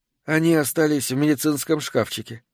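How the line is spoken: Gloomy reply. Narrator (Russian): мрачно ответила она

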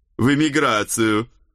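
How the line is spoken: Loud distant reply. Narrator (Russian): громко ответил Центурион уже из стойла

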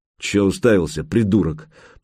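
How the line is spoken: Grumbled. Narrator (Russian): проворчал Гучко

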